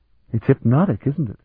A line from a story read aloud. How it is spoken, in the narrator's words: Sir Bevier breathed